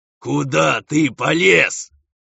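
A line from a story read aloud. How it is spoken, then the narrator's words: Yelling angrily. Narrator (Russian): орал на него Булфер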